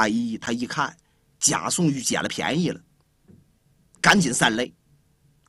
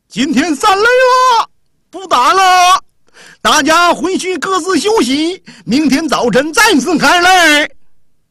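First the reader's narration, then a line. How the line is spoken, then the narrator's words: Shouting. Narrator (Chinese): 周化一在前面的喊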